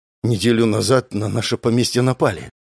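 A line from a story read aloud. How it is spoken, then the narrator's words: Strained, forced words. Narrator (Russian): выдавил из себя парень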